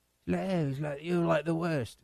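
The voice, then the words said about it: Imitates another person's voice, poorly. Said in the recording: “My Simon impression's terrible.”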